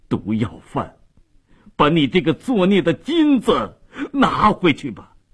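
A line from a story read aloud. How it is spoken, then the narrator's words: Wailing in grief. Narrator (Chinese): 米勒哭喊着跪倒在咽了气的女儿身旁 说道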